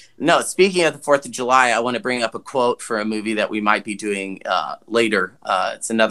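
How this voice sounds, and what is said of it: Usual voice. Nothing is said of it.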